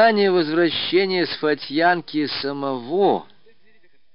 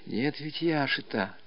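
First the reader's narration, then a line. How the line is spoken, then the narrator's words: Whispered. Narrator (Russian): шепотом сообщила ему Устинья Марковна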